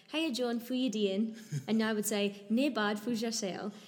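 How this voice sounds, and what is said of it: Broad rural northeast Scottish accent. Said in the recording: “my Scottish accent ... northeast coast of Scotland, which is like country Scotland ... a Scottish accent in Aberdeen ... in Scottish”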